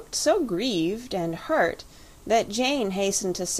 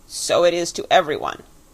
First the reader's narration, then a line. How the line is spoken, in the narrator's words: said the creature sharply